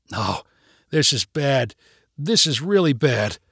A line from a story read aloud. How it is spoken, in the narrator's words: Tommy said with a low groan